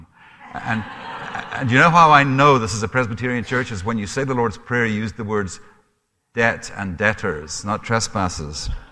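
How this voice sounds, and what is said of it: Mixed Scottish accent with Canadian twang. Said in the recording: “I am Scottish. My accent is probably a mixture of a number of things... a little bit of a Heinz's 57 varieties... a bit of a Canadian twang there, too... I grew up in Africa, in Rhodesia... I have an accent from there”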